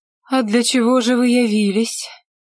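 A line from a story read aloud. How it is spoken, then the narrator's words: Calm, almost bored. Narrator (Russian): Удивительно спокойным, едва ли не скучающим голосом спросила Лите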